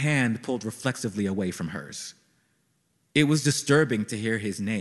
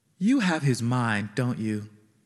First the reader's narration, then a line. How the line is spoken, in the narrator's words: she said